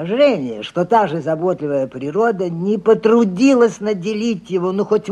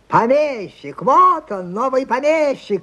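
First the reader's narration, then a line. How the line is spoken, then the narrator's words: Crowd of heirs shouting. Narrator (Russian): кричали прочие наследники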